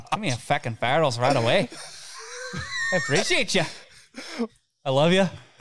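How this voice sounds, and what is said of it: Full-blown put-on Irish accent. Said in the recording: “his full-blown Irish accent”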